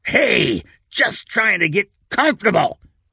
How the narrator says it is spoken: growled

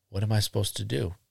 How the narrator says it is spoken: Ingo whispered back

